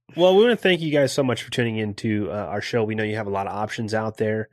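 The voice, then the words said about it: Nasal, congested voice. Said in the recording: “if I sound a little nasally.”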